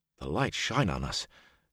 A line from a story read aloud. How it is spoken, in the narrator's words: Huron murmured nervously